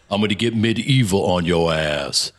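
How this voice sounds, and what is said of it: Imitates another person's voice. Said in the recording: “that was good, Ving Rhames.”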